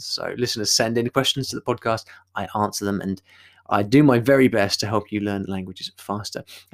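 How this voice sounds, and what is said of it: British English accent. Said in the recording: “my dulcet tones, my British English accent.”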